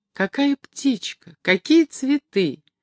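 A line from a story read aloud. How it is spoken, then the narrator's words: Joyful repetition. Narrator (Russian): радостно повторяла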